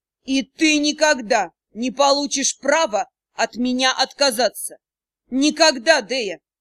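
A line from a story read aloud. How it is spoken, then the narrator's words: Growling. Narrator (Russian): не говорил, он рычал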